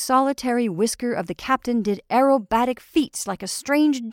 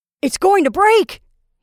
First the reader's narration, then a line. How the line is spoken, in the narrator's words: he cried